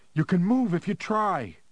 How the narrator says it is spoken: Harry shouted at her

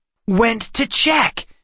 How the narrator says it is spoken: Seth exclaimed

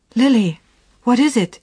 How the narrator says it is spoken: she exclaimed

